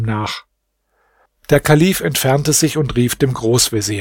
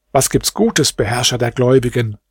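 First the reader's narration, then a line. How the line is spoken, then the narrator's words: Plain. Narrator (German): fragte Djafar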